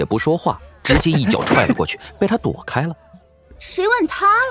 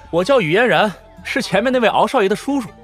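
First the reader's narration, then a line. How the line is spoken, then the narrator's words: Bold, laughing. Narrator (Chinese): 雨嫣然豪迈得很，笑着说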